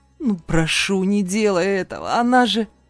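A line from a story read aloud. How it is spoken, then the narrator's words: Growling plea. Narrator (Russian): прорычал я и взмолился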